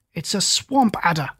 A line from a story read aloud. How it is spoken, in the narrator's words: cried Holmes